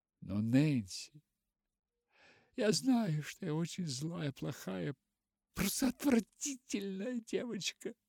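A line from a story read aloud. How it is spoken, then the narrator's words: Sobbing girl. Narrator (Russian): всхлипнула она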